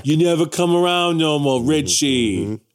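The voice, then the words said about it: Deliberately bad New York accent. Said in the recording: “doing a terrible New York accent”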